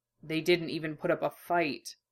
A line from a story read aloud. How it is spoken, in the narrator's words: Hughes said quietly, his voice softening from official to something edged with pained concern